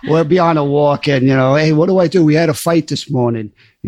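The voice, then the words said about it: New York accent. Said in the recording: “the New York accent”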